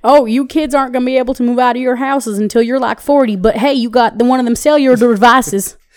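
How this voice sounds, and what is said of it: Put-on folksy old-person accent. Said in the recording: “I hate that fucking accent... that's always my go-to accent when I'm talking about people who... About older people?”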